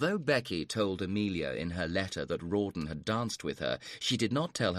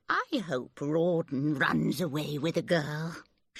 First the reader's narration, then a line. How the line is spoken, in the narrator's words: she added dreamily